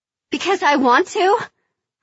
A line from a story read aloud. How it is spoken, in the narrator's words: I say, but I hear my voice rising in an unconvincing question